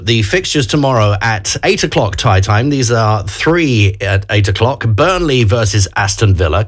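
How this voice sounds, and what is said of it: London accent. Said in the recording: “I'm from London. Just in case you hadn't noticed with my accent. People ask me if I'm Australian for some odd reason, but definitely not.”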